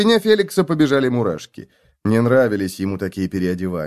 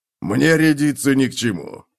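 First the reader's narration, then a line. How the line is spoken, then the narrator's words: Snorting. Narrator (Russian): фыркнул гном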